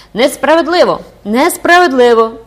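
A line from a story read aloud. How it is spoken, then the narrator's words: Shouting schoolchildren. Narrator (Ukrainian): закричали школярі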